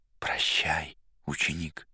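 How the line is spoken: Barely audible. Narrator (Russian): чуть слышно сказал мастер

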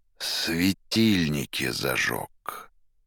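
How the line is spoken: Through teeth, mimicking tone. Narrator (Russian): Сквозь зубы в тон арестанту проговорил Пилат

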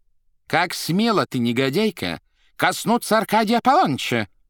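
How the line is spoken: Menacing question, wife. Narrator (Russian): грозно спросила супруга Аркадия Аполлоныча

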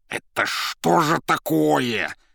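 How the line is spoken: Near hiss. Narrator (Russian): почти зашипела Зазелла

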